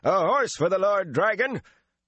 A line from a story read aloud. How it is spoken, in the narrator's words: the man shouted